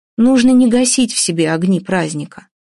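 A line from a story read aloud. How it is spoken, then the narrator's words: Plain. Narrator (Russian): сказала Вася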